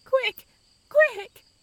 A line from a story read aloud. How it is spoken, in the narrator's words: she cried